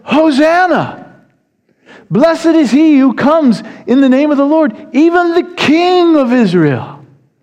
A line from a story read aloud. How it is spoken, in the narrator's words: with shouts of